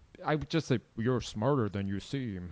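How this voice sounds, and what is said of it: Weak Morgan Freeman impression, not deep. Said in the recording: “that was not a good Morgan Freeman impression ... It's got to be a lot deeper”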